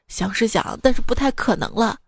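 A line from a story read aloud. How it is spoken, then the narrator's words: Sighing. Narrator (Chinese): 她叹气道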